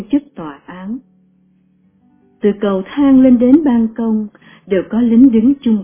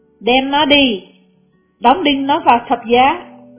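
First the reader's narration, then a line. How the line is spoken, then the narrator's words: Crowd shouting. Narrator (Vietnamese): họ la lên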